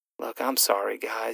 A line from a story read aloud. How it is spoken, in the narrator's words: he whispered